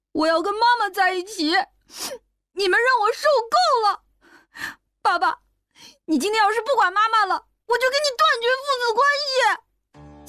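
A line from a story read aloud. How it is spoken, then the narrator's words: Crying. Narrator (Chinese): 小军边哭边说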